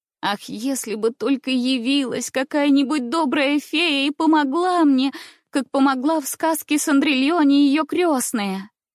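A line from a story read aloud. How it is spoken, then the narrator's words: Sobbing. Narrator (Russian): Повторяла я сквозь рыдание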